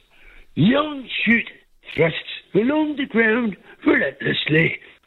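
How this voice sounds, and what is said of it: Nature-narrator impression, sing-song. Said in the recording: “I believe, David Attenborough... It sounded like a musical. It sounded like you were going for a song”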